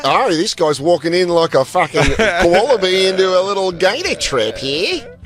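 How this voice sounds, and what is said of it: Bad put-on Australian accent. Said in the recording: “I realize how awful my Australian accent is.”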